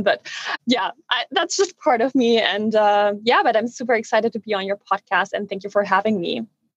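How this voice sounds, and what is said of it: Noticeable non-native accent. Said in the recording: “fabulous accent. I could listen to your voice all day... I'm a little bit nervous because of my accent.”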